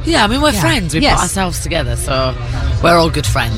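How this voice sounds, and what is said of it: Noticeable foreign accent. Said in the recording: “You hear about the accent... you still got that accent”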